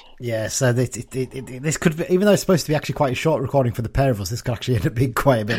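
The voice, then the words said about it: Congested voice from a cold. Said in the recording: “as you can probably tell right hearing my voice right now, I've got a bit of a cold”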